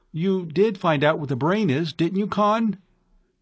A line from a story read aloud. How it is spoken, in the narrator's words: Brangwen asked anxiously